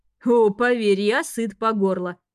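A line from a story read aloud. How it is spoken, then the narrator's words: Wry chuckle. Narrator (Russian): хмыкнул тот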